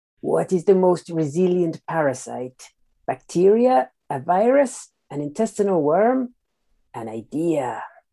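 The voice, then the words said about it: Peter Lorre impression. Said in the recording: “I'm not very good at accents, so I'm going to attempt to do this in the style of Peter Lorre ... by the accent”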